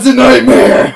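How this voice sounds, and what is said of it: Loud, raised voice. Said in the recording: “lower your voice. Can you do that? Can you lower your voice”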